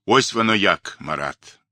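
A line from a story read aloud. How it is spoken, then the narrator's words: Low droning boom. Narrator (Russian): прогудел он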